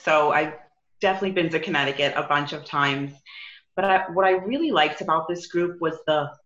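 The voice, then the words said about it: New York accent. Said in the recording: “I'm from New York. I don't know if you could tell from my accent.”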